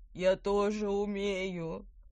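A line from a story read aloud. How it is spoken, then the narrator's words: Hoarse wheeze. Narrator (Russian): прохрипела Петронелла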